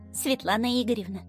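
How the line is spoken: Quiet call. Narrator (Russian): тихо позвала Лиза

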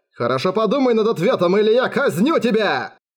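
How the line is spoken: Furious shouting. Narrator (Russian): Кричал медведь, не скрывая закипающей ярости

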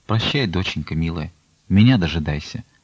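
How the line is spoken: Quiet farewell. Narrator (Russian): Аксинья Захаровна тихо промолвила

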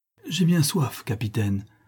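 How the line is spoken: Melancholy, pleading exclamation. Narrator (French): s'écria d'un ton mélancolique et suppliant le noble portugais

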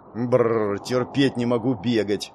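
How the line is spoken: Displeased mutter. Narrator (Russian): недовольно буркнула Марис

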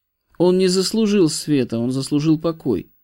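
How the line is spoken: Sad voice. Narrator (Russian): печальным голосом проговорил Левий

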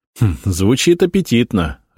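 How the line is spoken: Laughing. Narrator (Russian): рассмеялся я

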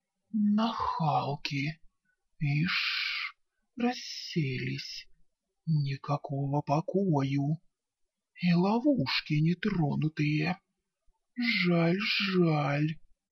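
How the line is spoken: Old woman muttering. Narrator (Russian): старая корга бормоча себе под нос

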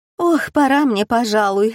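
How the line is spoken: Sighing. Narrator (Russian): вздохнула Каролина

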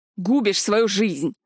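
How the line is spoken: Sudden growl. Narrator (Russian): внезапно рыкнул Ришел

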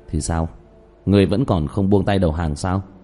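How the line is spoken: Cold sneer. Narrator (Vietnamese): Diệp Thiếu Dương cười nhạt

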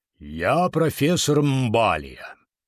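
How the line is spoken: Deep booming bass. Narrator (Russian): прогудел он таким густым басом

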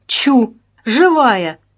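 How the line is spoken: Amazed exclamation. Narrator (Russian): изумленно воскликнул Кирсанов

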